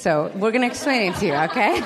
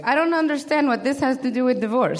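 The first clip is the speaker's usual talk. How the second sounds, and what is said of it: Imperfect imitated Brazilian accent. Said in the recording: “I didn't do the accent right, but she's Brazilian.”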